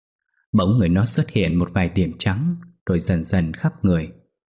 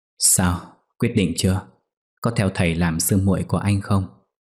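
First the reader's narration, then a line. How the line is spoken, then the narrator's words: Sighing. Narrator (Vietnamese): Anh thở dài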